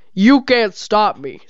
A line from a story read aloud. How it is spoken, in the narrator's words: Scarygon roared